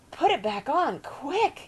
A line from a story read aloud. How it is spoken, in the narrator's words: Jack gasped